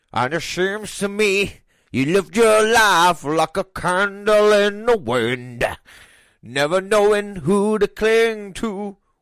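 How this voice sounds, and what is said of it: Sung impression of another person's voice. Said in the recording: “A la Elton John ... that sounds like you doing an impression of Jack Black doing an impression of Elton John.”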